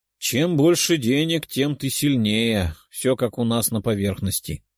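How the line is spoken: Sorrowful sigh. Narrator (Russian): горестно вздохнул Черный

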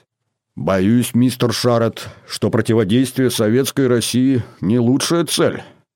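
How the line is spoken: Grumbling. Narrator (Russian): проворчал Дэвид

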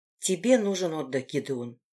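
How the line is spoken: Quiet. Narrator (Russian): тихо сказала я

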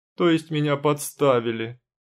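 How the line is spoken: Howling wail. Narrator (Russian): Взвыла

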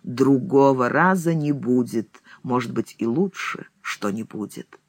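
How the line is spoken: Gloomy and solemn. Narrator (Russian): говорит мрачно и торжественно

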